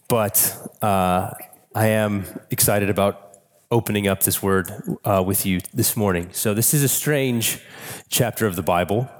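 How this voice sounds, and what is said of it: Hoarse, congested voice from a cold. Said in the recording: “forgive my voice. I've got a little bit of a cold, or as Moses would say, I am hoarse of throat and stuffy of nose”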